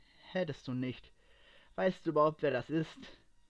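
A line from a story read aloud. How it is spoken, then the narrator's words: Calm question. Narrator (German): fragte er ruhig nach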